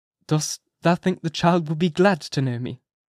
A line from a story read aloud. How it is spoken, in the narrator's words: asked the minister, somewhat uneasily